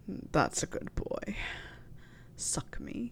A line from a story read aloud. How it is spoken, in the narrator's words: Snape murmured